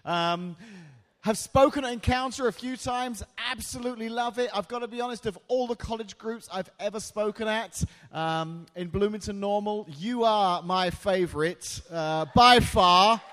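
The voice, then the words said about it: British-sounding accent. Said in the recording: “the accent. Yeah, that's right. That's how we all speak in that strange little town of Washington where we all sound British.”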